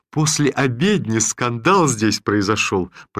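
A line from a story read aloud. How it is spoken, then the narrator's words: Talking through bursts of laughter. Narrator (Russian): продолжал Никита Назарыч, прерывая свою речь залпами хохота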